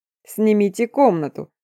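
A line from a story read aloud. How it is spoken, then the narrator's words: Joyful cackling chorus. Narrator (Russian): радостно гагача воскликнули они хором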